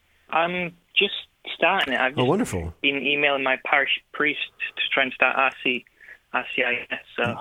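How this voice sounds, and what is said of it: Northern English Yorkshire accent. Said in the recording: “I was thinking from your accent, I was thinking that's maybe you were from the north. ... I live in the north of England, called Yorkshire.”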